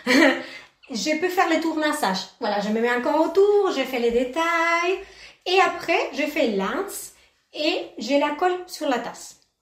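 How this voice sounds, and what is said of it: Sing-song accent. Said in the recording (French): “avec un accent aussi chantant”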